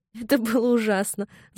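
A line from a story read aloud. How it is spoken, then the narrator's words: Laughing. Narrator (Russian): засмеялась она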